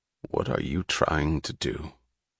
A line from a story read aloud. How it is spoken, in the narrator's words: Reardon asked, his voice low with a sound which was almost a threat